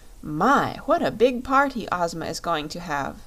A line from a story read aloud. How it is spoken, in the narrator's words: exclaimed Dorothy